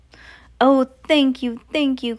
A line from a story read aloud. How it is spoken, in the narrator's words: cried the old witches